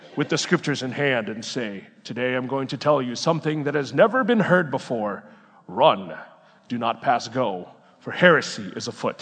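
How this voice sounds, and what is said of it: Deep-voiced imitation of a professor. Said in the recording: “had his big deep voice”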